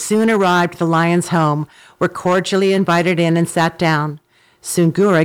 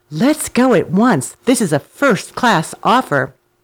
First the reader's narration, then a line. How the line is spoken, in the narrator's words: The donkey was greatly elated at this and exclaimed